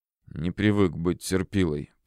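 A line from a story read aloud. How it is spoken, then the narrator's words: Through gritted teeth. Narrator (Russian): процедил Индия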